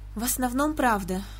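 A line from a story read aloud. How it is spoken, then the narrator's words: Uncertain. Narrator (Russian): неуверенно сказала сестра Кармин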